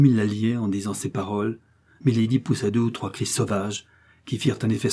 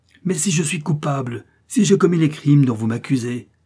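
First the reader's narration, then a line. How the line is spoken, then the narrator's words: Scream. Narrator (French): hurla Milady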